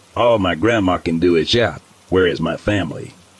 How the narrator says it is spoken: The man responds gruffly

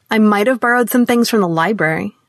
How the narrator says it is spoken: she said, and her tone dared her mother to make something of it

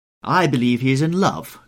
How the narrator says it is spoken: cried Lady Narborough

